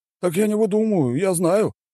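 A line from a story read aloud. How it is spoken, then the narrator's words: Exclaiming. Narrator (Russian): воскликнул он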